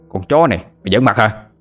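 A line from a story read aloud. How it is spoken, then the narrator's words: Shouted. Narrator (Vietnamese): Một tên thanh niên lực lưỡng liền quát lên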